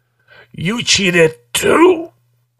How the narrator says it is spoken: says thickly

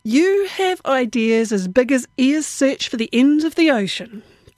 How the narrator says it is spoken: Tao chuckled

